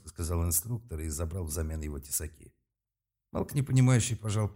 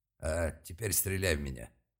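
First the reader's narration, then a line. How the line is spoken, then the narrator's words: Barked. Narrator (Russian): рявкнул тот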